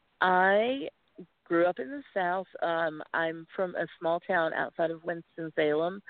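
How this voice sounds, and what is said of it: Southern US accent. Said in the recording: “your Southern accent, which has totally come back now”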